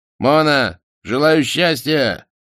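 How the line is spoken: Touching shout from shore. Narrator (Russian): крикнул с берега трогательный Романов

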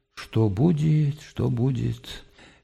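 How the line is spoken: Anguished mutter. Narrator (Russian): с тоской пробормотал

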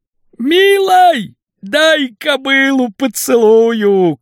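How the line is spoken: Shouting barbarian. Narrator (Russian): крикнул варвар без шапки

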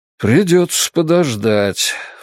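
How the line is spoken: Sighing. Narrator (Russian): вздохнул Чингис

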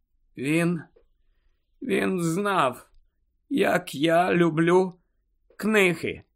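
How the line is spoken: Hoarse. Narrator (Ukrainian): хриплим голосом відповіла Герміона

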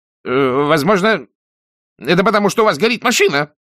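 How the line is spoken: Sharp. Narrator (Russian): резко сказал Тайлер ему вслед

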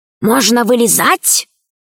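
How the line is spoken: Whisper. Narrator (Russian): прошептал Пашка

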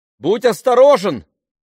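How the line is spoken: Shouted after someone. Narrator (Russian): крикнула ему вслед Ливи

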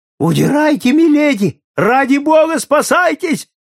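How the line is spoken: Shouting while running. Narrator (Russian): закричал он, пробегая мимо сэра Найджела и его супруги

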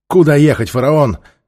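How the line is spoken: Shout. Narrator (Russian): крикнул Хилта

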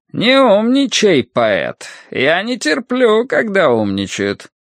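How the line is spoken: Strange high accented voice. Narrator (Russian): своим странным высоким голосом с акцентом Рошань сказал

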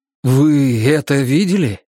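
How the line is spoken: Bewildered. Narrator (Russian): растерянно проговорил доктор

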